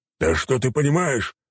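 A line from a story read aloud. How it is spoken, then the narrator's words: Shouting war god. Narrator (Russian): выкрикнул бог войны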